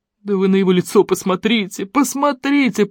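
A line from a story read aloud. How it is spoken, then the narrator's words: Sobbing. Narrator (Russian): прорыдал Смешарин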